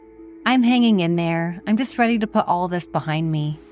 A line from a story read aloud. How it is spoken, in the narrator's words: Olivia replied with a sigh